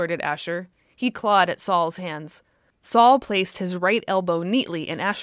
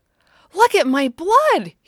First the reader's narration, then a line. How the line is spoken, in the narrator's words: he shouted happily